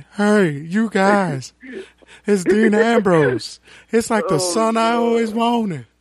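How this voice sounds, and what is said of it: Imitates another person's voice. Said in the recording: “When Terry Funk came out, I was like, oh, good. I get to use my impression again.”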